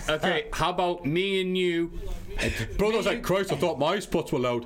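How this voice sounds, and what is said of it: British Bulldog's northern English accent. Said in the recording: “It's hard doing Bulldogs accent sometimes ... Yorkshire Bulldogs ... Sort of Yorkshire, so. Manchester, innit? It's sort of that Pennines. Across the Pennines.”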